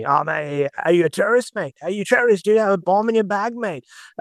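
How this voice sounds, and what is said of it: Good Northern Australian accent. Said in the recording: “I do a very good Northern Australian accent, as you just picked up there”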